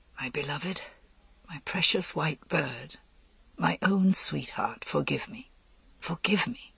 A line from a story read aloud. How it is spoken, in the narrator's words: he murmured